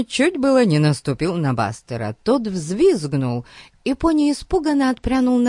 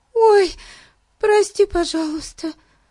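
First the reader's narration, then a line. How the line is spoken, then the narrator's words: Sighing. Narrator (Russian): вздохнула Хиллари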